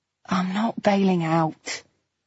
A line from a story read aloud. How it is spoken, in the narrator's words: I said wearily